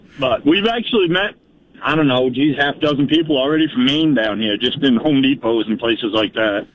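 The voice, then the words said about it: Down East Maine accent. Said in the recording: “you got a real old line accent ... You got a down east accent.”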